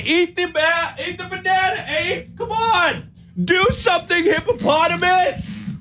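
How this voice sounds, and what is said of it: Yelling. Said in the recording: “I'm yelling at the animals”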